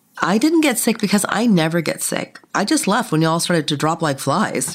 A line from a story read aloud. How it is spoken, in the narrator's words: laughed nervously